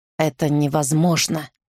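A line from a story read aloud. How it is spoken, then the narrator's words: Hoarse. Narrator (Russian): хрипло сказал он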